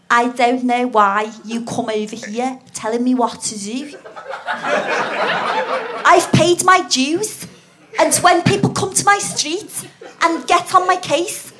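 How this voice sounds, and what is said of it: Weak put-on Scouse accent. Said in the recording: “a bit of a Scouse accent, but it never really sounded that Scouse because I can't do accents that well ... Should I try to do Scouse?”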